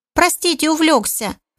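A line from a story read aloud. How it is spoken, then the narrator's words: Squeaky excusing voice. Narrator (Russian): Писклявым голосом постарался оправдаться свинорыл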